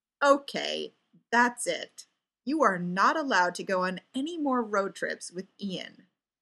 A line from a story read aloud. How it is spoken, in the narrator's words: Ray told him firmly